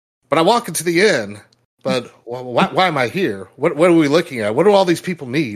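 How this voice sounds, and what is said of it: Obama impression with his cadence. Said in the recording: “Obama ... his charisma and voice ... I'm sitting here thinking of the voice ... with his cadence and everything else”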